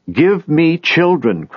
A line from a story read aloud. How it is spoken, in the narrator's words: cries Rachel to Jacob